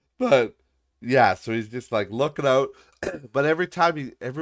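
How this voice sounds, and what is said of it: Usual voice. Nothing is said of it.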